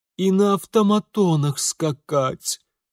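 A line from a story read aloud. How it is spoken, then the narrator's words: Interjecting. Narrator (Russian): вставила Полина Марковна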